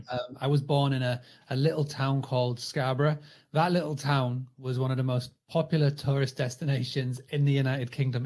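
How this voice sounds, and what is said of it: British English accent. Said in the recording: “as you can tell from the accent, I'm over the pond. I'm in the United Kingdom.”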